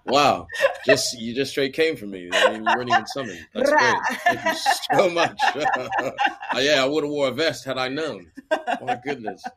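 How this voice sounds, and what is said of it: American accent with British influence. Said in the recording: “is American, but he lives in the UK. So if you hear kind of like a bootleg accent”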